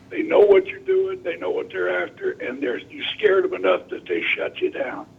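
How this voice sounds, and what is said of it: Rough, strained voice. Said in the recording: “I apologize for the voice. I'm going through a little rough patch with it.”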